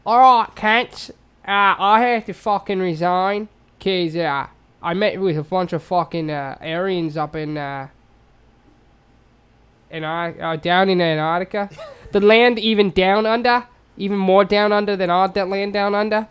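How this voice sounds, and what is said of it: Put-on New Zealand accent. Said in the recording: “I have to say it in a New Zealand accent.”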